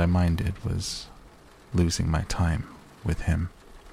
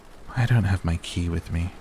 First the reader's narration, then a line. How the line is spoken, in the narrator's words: sighed